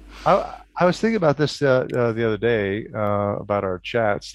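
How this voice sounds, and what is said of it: Clear American accent. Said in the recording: “I wonder what my accent sounds like to most of your listeners ... Pretty good ... American accents ... Pretty clear”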